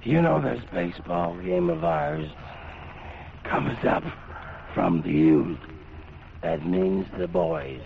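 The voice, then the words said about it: Voice sounds bad, strained. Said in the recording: “you know how bad my voice sounds.”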